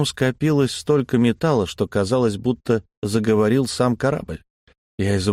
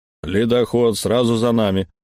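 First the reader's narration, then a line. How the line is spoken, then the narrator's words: Booming through speaking tube. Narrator (Russian): прогудела из переговорной трубы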